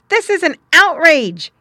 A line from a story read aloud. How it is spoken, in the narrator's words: he cried aloud